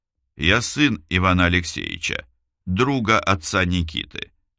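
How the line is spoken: Calm. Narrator (Russian): спокойно сказал Илюшин

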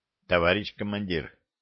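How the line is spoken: Quiet translation. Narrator (Russian): тихо перевел Ли слова корейского офицера

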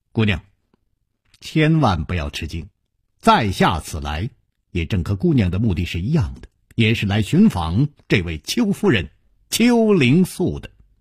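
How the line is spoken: Slight smile. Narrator (Chinese): 楚留香微微一笑

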